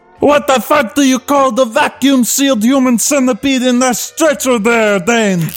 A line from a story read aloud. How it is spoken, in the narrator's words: Donkey screamed